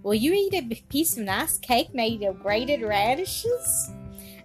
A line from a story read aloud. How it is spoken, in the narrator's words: saying in a bantering tone